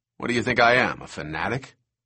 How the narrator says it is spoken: Eddie grunted

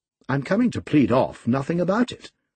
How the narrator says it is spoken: I exclaimed, considerably irritated

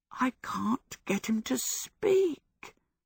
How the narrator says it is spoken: Michael whispered miserably

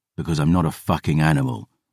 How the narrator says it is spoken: I growled

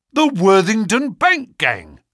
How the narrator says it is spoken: cried the inspector

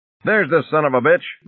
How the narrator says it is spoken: Monroe shouted

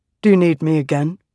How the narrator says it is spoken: Radiant asked

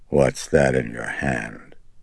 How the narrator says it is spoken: she rasped, her eyes apprehensive

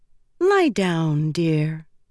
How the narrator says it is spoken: Matisse said soothingly

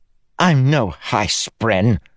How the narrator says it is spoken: the captain spat

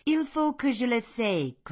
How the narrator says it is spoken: cried she

